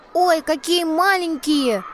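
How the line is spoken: Shriek. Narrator (Russian): взвизгнула Эля

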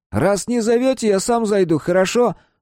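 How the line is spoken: Cheerful, loud question. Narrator (Russian): спросил парень весело и громко

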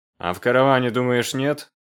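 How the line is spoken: Contemptuous snort. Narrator (Russian): хмыкнул Симаргл презрительно

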